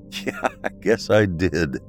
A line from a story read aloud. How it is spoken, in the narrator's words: he laughed